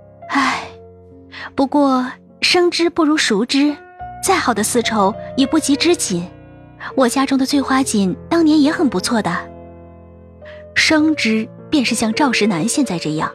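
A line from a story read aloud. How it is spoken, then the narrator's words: Soft sigh. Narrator (Chinese): 杜恒轻叹口气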